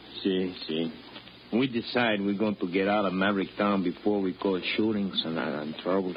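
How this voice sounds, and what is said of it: Foreign accent, broken English. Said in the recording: “Now you're actually talking like a foreigner.”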